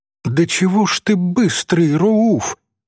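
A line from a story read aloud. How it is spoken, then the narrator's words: Exclaiming. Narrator (Russian): воскликнула Софичка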